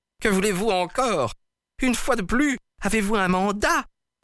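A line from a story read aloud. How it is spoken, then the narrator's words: Furious yelling. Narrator (French): hurla Peters, furieux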